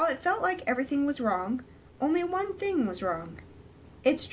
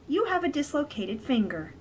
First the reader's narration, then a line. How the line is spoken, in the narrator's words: the doctor said, with a bit of a sigh